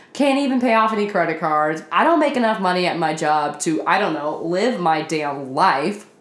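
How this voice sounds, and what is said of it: Tired, weary voice. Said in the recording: “I'm tired. Can you hear it in my voice?”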